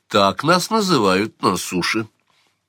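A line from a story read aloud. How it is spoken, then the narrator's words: Calm, young woman. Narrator (Russian): спокойно сказала девушка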